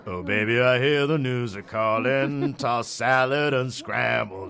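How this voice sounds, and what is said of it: Imitating Frasier's Seattle accent. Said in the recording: “a perfect Frasier Seattle accent”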